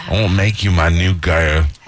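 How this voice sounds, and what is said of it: English accent, imitates another person's voice. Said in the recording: “That's my English accent. ... You sound like the guy from Flight of the Conchords. ... I'm very impressed with my Mick Jagger. ... That's a pretty good Mick Jagger.”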